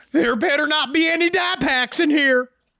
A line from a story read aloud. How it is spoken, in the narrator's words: Danny yelled